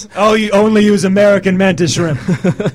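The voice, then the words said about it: Donald Trump impression. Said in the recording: “your Donald Trump impression. I think it's maybe your first impression, and I'm quite impressed. ... impersonation of Donald Trump”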